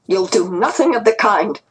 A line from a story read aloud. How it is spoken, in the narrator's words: Grandma said sharply